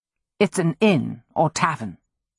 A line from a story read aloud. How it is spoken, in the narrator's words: Robin said quietly